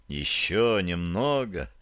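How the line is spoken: Whisper. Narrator (Russian): прошептал я ей

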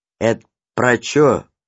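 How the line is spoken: Plain question. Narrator (Russian): спросил Гриша

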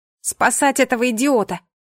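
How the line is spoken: Shout. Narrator (Russian): крикнула

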